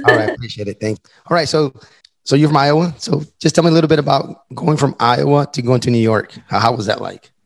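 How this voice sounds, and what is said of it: Strained, worn-out voice. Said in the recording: “my voice is a little shot”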